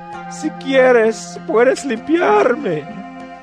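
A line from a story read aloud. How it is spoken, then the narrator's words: Leper man pleading. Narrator (Spanish): Un hombre que tenía lepra suplicó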